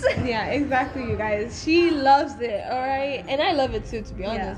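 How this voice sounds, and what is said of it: Somewhat British-sounding accent. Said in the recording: “my accent is so good ... I love your accent. Thank it's like you. British, but then not British.”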